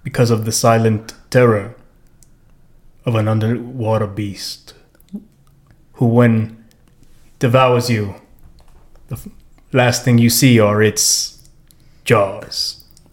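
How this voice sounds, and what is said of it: Dramatic movie-trailer narrator voice. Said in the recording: “What are you even, like, imitating? What accent is this? ... teaser trailer for Jaws ... it's a guy doing a voice just like that”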